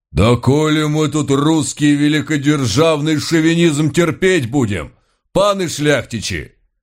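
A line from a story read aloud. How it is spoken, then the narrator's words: Devil howling. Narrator (Russian): Взвыл польский черт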